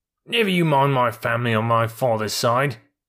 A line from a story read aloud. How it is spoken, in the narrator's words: said Billy angrily, for every mule hates to be reminded that his father was a donkey